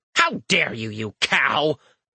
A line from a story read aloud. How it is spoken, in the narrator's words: Eric snaps